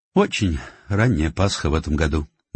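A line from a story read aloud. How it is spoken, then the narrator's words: Adding with a sigh. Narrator (Russian): добавила она и вздохнула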